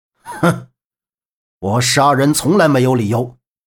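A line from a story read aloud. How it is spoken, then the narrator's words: Cold laugh. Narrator (Chinese): 绝无神冷冷一笑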